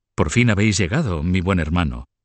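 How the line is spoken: Plain. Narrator (Spanish): dijo luego

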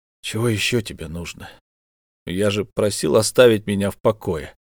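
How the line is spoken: Gloomy question. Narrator (Russian): мрачным голосом спросил

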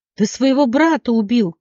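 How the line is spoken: Shouting. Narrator (Russian): крикнула Леона

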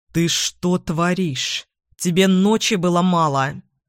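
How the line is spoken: Furious, through teeth. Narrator (Russian): он яростно процедил

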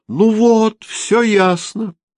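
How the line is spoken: Joyful announcement. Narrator (Russian): радостно объявила она

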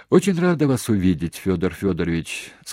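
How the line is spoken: Breathless speech. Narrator (Russian): сказала Пикина, несколько раз глубоко вздохнув перед этим, не от печали, а чтобы отдышаться

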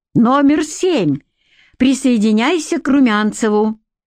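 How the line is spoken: Joyful. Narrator (Russian): Тот радостно сообщил

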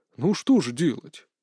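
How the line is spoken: Quiet reply. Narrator (Russian): так же тихо отвечал Александр

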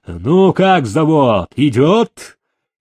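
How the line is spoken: Eager shout, father. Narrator (Russian): Блеснув глазами, батька вместо приветствия крикнул

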